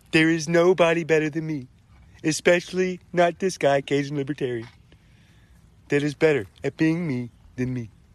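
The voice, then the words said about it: Imitates another person's voice. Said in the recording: “the ... Donald J. Trump impersonation has to be better than that one”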